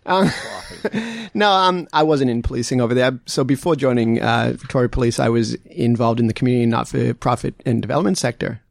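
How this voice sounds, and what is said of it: Boston American accent. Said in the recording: “that beautiful accent of yours ... I grew up in the United States just outside of Boston ... the accent stuck around”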